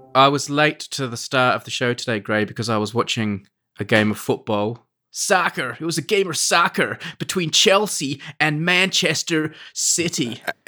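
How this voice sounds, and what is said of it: Put-on American accent. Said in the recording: “A-plus American accent there... You would blend right in with the natives.”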